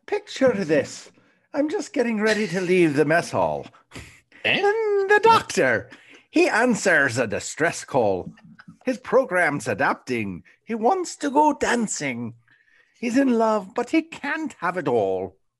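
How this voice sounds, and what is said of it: Put-on Irish accent. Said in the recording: “throw in the Irish accent ... That's not how we sound. We don't talk like that at all. Yeah, that's horrible. You're making us sound like a Lucky Charms ... I'm just trying to give it a little Irish flavor.”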